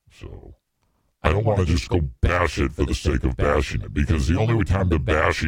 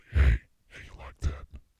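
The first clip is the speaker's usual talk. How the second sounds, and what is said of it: Quiet, breathy ASMR-style voice. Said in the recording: “This is a sexy ASMR voice... I would just talk real quietly”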